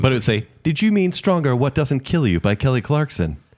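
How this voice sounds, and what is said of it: Put-on accent, voice-assistant style. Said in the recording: “Why did you have an accent? ... So Alexa speaks now.”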